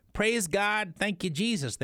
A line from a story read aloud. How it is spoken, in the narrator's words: they cried